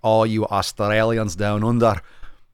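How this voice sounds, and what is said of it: Scottish-sounding put-on accent. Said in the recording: “That was like a Scottish accent.”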